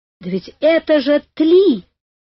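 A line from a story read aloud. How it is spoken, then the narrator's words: Shouted. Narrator (Russian): закричал Карри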